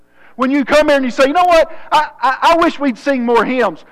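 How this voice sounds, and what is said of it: Rural Southern American accent. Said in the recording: “redneck accent”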